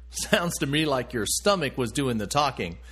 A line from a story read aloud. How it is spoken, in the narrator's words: said with a laugh